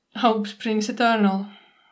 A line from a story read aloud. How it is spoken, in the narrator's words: Nightingale says, but rather gloomily